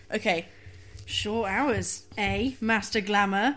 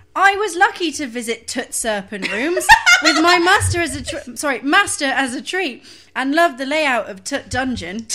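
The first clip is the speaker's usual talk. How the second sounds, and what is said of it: Clumsy put-on Northern English accent. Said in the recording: “I can't do a Yorkshire accent ... Just do generic Northern ... I'm terrible at accents ... Just do any accent”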